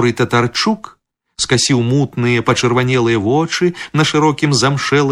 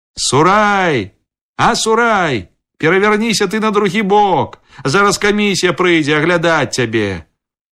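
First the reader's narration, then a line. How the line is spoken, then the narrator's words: Shout. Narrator (Belarusian): Тады крыкнуў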